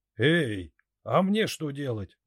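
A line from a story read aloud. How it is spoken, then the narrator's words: Old man shouting after. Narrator (Russian): выкрикнул старый охотник ему вслед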